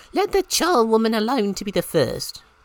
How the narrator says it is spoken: cried she

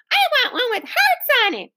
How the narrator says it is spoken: wailed a girl

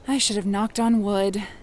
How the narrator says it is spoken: Kate panted, catching her breath

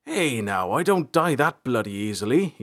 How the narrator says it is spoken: he spat

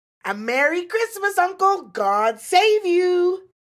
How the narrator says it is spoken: cried a cheerful voice

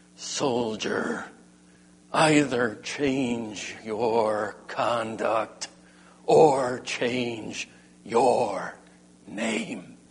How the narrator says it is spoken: Alexander, through clenched teeth, growled

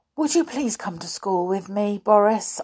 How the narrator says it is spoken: I pleaded

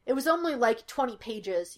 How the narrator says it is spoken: he snapped

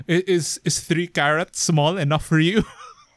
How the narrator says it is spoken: I laughed

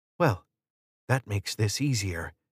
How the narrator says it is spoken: she whispered

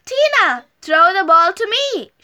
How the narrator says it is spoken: shouted Fluffy

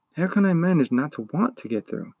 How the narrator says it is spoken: Ingiwook sighed

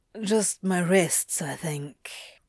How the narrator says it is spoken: he answered quietly

